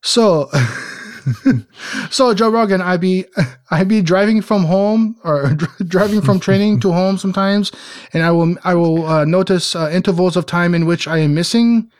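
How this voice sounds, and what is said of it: Put-on French Montreal accent. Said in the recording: “I'll try to do this in a French Montreal accent.”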